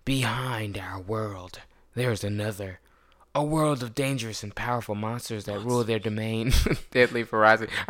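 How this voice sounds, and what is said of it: Dramatic movie trailer narrator voice. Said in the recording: “let me get my movie trailer voice”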